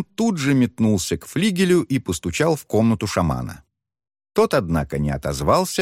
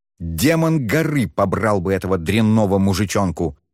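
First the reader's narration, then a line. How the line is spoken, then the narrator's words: Angry exclamation. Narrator (Russian): столь зло воскликнул Шен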